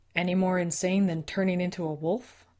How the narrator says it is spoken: Les laughed

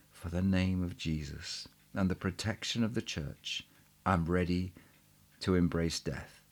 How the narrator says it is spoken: saying in a low voice

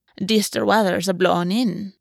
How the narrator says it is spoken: Aura said, her voice rough

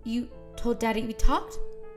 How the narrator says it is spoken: She said in a panicked voice

